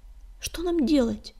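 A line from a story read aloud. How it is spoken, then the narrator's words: Anxious whisper. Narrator (Russian): взволнованно зашептала невидимка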